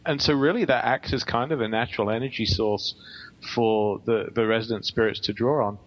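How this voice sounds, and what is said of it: English accent. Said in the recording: “you have some type of an accent. I was going to say English, but is it an Australian? ... England is correct.”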